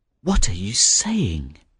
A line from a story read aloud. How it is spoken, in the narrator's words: murmured the young fisherman